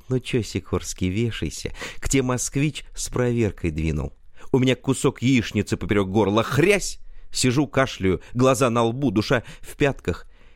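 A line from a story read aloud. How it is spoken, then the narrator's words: Sweet voice over phone. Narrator (Russian): звонит налоговый и ласково так говорит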